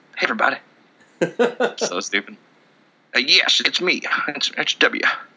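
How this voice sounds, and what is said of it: Inconsistent southern accent impression. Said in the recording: “Now I'm George W. Bush all of a sudden, because I can't do accents ... I can do that one better than Colby ... that southern accent changed like 17 different times”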